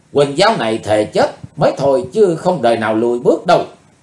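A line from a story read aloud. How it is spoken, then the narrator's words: Furious shout. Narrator (Vietnamese): Không còn dằn được cơn giận dữ nữa, Quỳnh Dao hét lên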